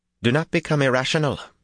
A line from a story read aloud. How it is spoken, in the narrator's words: she broke in sharply